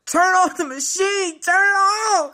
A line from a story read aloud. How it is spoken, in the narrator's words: I hollered